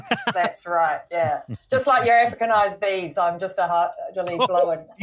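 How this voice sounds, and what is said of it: Mixed New Zealand-Australian accent. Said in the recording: “the beautiful Australian accent ... that's the Kiwazi accent ... You're one of them hybrids”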